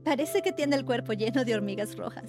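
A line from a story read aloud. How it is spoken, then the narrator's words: Laughing woman's remark. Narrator (Spanish): dijo riendo una de ellas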